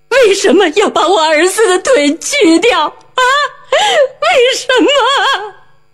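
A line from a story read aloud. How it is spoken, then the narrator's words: Crying out. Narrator (Chinese): 他对周围的医护人员哭喊着说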